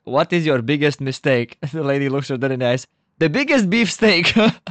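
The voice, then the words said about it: Very thick put-on accent. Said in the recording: “With a very like thick accent, she's like”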